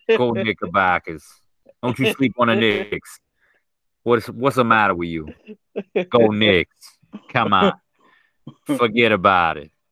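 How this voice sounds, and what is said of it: Put-on New York accent. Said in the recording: “And you just talk in accent the whole night.”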